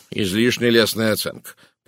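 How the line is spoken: Grumbling. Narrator (Russian): проворчал Пуаро

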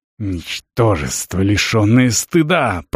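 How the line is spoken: Hiss. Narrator (Russian): прошипел он

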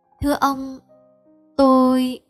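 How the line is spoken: Sad, trembling, soft voice. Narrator (Vietnamese): buồn rầu cất tiếng run run nói sẻ

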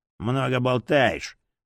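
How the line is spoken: Mutter. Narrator (Russian): буркнул фанатик

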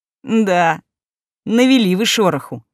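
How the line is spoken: Short chuckle. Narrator (Russian): хохотнул Эгри

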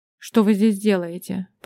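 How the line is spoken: Grumbling. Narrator (Russian): пробурчал он

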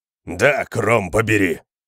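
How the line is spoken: Growled. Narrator (Russian): прорычал кемериец

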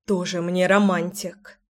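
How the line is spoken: Amused snort, suppressed smile. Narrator (Russian): Я фыркнула, но сдержать улыбку не могла

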